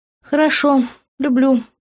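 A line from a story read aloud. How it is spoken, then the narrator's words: Sad, smiling. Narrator (Russian): печально улыбнулась я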